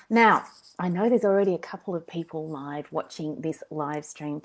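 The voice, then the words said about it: Voice not at full strength. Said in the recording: “as you may be able to hear, my voice isn't quite 100%, and it's been up and down, patchy and quite crappy”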